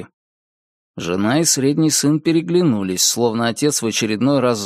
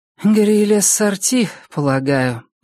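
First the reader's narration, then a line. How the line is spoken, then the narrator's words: Sighing. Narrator (Russian): вздохнула Кэролайн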